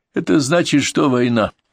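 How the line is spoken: Cheerful smirk. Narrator (Russian): весело усмехнулся Петр

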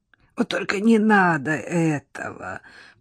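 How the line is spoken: Hoarse rasp. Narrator (Russian): прохрипел Ананасов

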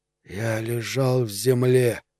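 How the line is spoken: Whispering. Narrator (Russian): прошептал сержант

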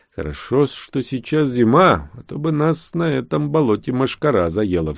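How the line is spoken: Sighed. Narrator (Russian): вздохнул я

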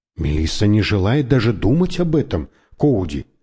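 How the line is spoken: Plain. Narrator (Russian): сказал я

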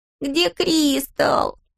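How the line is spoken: Whimpering. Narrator (Russian): хныкала Робби

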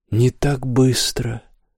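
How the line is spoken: Hoarse voice. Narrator (Russian): Снова раздался хриплый голос

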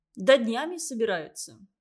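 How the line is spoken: Plain. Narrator (Russian): сказал Вадим

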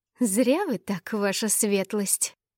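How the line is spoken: Sudden furious hiss. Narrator (Russian): с неожиданной яростью прошипела

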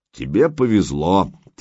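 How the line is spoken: Beautiful rumbling bass. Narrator (Russian): тем же красивым ракочущим басом продолжал мастер знаний

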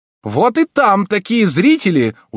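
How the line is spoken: Very loud shout. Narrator (Russian): уже совсем громко вскричал К

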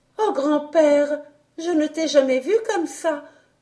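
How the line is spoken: Exclaimed. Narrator (French): s'écria-t-elle enfin

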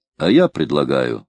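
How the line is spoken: Plain. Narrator (Russian): сказал боцман

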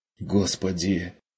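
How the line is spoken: Terrified whisper. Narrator (Russian): прошептала Мария, глядя на дверь с ужасом

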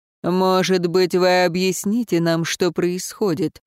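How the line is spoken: Gloomy question. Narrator (Russian): мрачно уточнил Эруан

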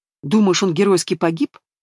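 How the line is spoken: Angry smirk. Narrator (Russian): зло усмехнулась мать

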